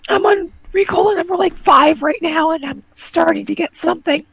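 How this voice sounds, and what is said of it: Hoarse, fading voice. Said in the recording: “losing my voice really sucks”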